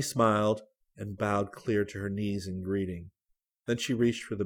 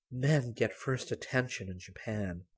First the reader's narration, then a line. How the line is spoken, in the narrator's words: Gran whispered to Celia